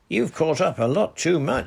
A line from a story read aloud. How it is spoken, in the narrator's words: shouted Captain Nancy cheerfully